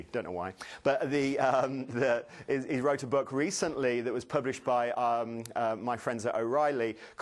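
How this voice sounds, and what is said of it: British accent with American influence. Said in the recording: “I have a strange accent. I'm British, but I live in Boston”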